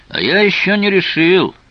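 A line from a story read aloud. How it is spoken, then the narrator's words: Shouted reply. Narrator (Russian): прокричал в ответ Тео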